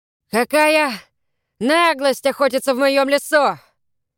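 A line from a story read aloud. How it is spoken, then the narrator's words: Shouted. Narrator (Russian): закричал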